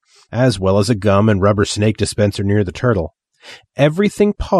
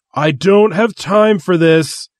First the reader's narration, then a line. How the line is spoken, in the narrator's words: the Grand Wizard yelled